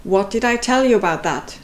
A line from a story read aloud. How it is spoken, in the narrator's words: asked, calmer now, but in a firm tone